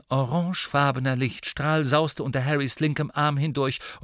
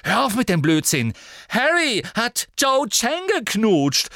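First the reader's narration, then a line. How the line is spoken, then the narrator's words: Calling out, near tears. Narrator (German): rief Ginny, und jetzt klang es, als sei sie den Tränen nahe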